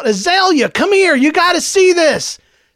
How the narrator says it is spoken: shout

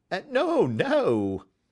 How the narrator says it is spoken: cried Holmes

